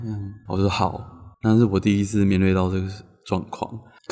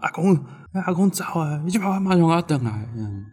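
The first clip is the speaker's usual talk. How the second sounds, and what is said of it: Urgent, agitated voice. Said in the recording (Chinese): “很急躁的声音说”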